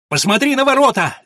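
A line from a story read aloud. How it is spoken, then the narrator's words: Shouting. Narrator (Russian): закричал граф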